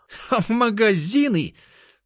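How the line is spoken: Sister's spiteful giggling. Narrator (Russian): набросилась сестра, злобно хихикая

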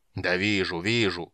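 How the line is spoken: Grumbled. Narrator (Russian): проворчал

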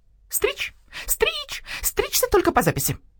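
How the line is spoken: Screeching bird barber. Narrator (Russian): завопил стриж-парикмахер

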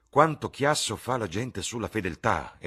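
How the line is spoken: Exclaimed. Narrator (Italian): esclamò Lord Henry

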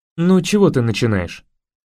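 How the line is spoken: Calm objection. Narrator (Russian): спокойно возразил капитан

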